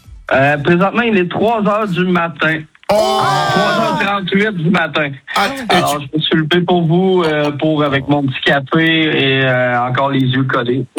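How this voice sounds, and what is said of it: Québécois French accent. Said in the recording (French): “cet accent québécois ... Vous avez de la chance d'avoir cet accent”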